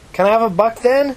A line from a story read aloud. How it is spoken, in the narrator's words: shouted at the woman's back as she walked off